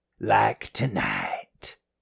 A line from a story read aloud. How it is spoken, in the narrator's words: the Margaret wolf growled behind her